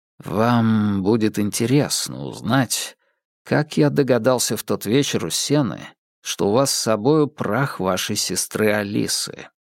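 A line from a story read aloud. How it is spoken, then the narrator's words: Very quiet. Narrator (Russian): очень тихо проговорил Холмс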